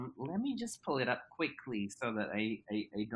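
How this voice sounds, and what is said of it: Usual voice. Nothing is said of it.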